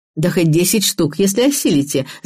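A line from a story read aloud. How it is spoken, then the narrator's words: Laughing. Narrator (Russian): засмеялась Вера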